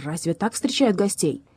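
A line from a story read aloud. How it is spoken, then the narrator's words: Offended bark. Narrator (Russian): Лев обиженно рявкнул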